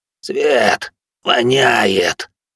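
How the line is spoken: Hoarse croak from captive. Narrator (Russian): прохрипел скованный

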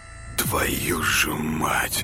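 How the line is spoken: Quiet remark. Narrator (Russian): Тихо обронил Артем

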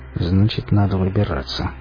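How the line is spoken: Muttering admiral. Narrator (Russian): пробормотал адмирал

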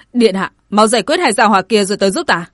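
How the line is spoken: Impatient urgent shout. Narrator (Vietnamese): Chiến Khuê cũng hơi biến sắc, sốt ruột quát

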